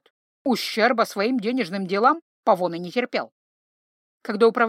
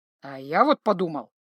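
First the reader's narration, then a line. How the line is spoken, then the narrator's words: Angry. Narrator (Russian): зло ответил ему Павоне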